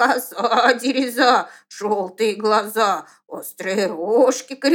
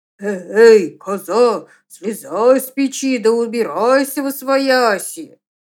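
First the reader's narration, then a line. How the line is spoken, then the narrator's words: Terrifying shouting voice. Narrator (Russian): коза страшным голосом кричит в ответ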